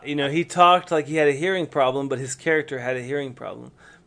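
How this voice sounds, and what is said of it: Southern American accent. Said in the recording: “I have a Southern accent. I'm from the South.”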